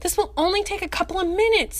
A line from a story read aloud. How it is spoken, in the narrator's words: Tony pleaded